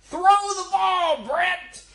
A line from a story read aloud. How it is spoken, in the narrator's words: his father from the stands would yell